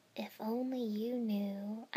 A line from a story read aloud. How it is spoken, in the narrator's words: I muttered